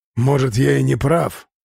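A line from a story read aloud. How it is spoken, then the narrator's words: Grumbled. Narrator (Russian): проворчал Бан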